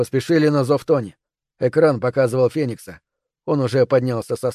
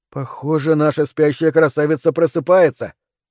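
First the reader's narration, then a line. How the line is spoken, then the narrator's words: Wry grunt. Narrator (Russian): хмыкнул Тони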